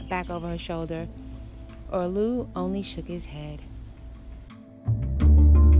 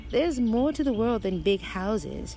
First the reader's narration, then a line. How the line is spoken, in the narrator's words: she chuckled